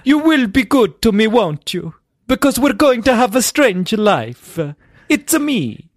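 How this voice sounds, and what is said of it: Exaggerated put-on Italian accent. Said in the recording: “what's this person you're doing? ... it's my Roman asshole ... she's Italian, yeah ... You're just doing an offensive impression ... layering in an offensive reference to Mario”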